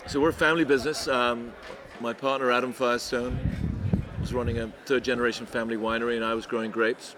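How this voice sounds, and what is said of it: English accent. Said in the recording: “not a Central California accent ... No, I'm English.”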